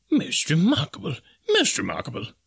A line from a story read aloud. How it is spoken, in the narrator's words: murmured Professor Porter